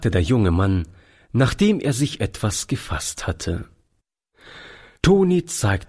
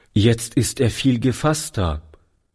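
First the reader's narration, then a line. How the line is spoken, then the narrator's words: Plain. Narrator (German): sagte Toni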